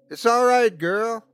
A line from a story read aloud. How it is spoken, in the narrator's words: Eric shouted